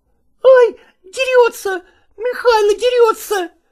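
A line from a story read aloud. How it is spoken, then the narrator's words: Shrieking. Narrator (Russian): завизжал Васютка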